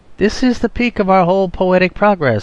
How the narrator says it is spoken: I cried enthusiastically

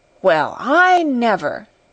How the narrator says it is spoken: she exclaimed

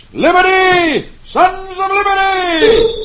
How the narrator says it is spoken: Paul Revere shouts

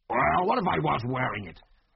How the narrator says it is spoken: He snarled belligerently

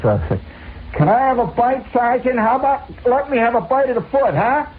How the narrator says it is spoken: in the crowd somebody hollers

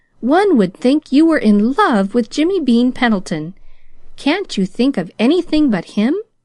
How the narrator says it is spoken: unbraided herself sharply

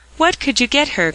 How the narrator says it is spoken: cried Mr

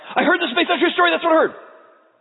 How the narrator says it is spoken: all of my family, wherever we're sitting, yell out

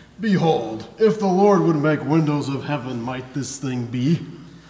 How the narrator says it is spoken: He mocks

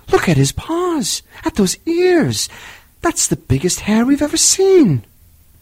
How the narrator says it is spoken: all the villagers exclaimed

